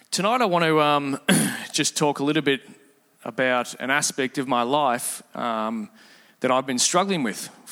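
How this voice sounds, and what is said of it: Voice sounds congested from a cold. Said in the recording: “I have a bit of a cold”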